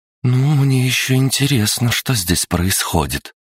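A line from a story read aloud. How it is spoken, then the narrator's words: Sighing. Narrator (Russian): она, вздохнув, сказала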